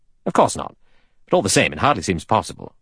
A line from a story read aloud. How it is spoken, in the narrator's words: Lombard said irritably